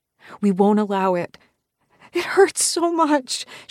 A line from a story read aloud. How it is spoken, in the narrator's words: she wails, her big brown eyes bubbling with fat tears